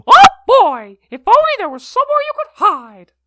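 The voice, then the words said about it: Mickey Mouse impression. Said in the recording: “That's really good. ... That's Mickey Mouse, isn't it?”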